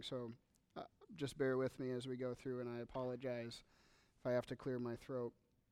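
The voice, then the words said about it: Hoarse voice. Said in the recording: “I did a lot of yelling at camp, and so my voice is a little bit hoarse this morning”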